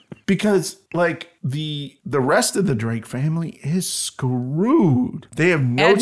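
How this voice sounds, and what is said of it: Usual voice. Nothing is said of it.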